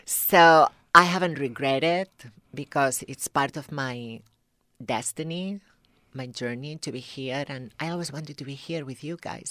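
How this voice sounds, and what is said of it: Thick foreign accent. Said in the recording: “I have a thick accent.”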